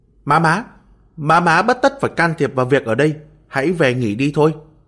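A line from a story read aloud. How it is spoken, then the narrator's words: Hurried shout. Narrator (Vietnamese): Thương Bảo Trấn ... gã vội chạy lại la lên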